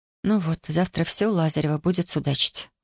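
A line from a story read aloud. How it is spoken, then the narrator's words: Sighing. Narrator (Russian): вздохнула она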